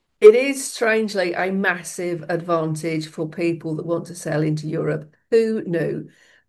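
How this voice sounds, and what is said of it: Northern Irish accent. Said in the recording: “your wonderful Northern Irish accent”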